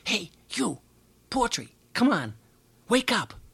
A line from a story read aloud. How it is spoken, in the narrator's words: hissing to Poetry